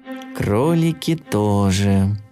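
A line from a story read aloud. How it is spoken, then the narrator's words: Sad mumble. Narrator (Russian): грустно пробормотал Топотун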